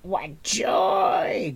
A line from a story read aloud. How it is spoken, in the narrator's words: Gurgi cried